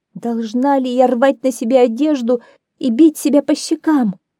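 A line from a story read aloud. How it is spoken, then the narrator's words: Sobbing woman. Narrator (Russian): зарыдала просительница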